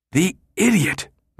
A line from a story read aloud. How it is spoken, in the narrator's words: Midge sputtered, seething